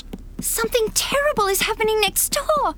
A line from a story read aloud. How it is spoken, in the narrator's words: she shrieked